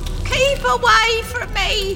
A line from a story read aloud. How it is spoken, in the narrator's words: wails the woman who was once Marius' aunt as she thrashes atop her casket